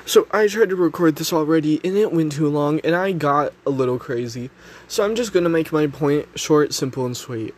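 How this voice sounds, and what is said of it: Sick-sounding voice. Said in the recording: “I'm sick. You can probably hear it in my voice.”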